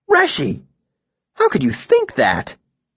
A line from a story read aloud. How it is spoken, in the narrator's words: he asked, his voice slightly offended